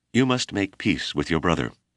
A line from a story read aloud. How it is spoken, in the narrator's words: crying nervously